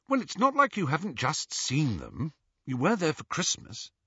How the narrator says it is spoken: said Hermione coldly

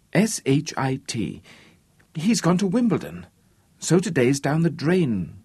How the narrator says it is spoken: said Robin

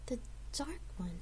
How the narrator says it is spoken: She asked, almost in a whisper

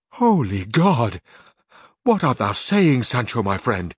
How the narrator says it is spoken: exclaimed Don Quixote

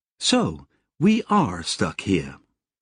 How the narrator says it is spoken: Relatively calmly, Sally said

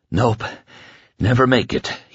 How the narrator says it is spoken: he panted

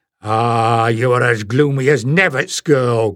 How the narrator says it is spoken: growled Stephen

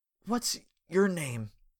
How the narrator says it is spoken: He asked weakly

